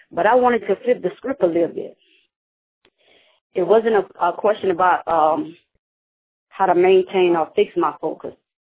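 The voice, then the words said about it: Sick-sounding, strained voice. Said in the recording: “Sorry about my voice. I'm kind of under the weather”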